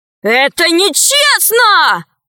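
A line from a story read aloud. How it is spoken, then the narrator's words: Wailing yell. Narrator (Russian): завопил он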